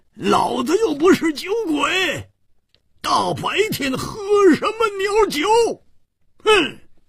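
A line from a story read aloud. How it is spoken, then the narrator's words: Angry roar. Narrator (Chinese): 胡铁花更是满肚子的怨气没处发，大声地吼叫着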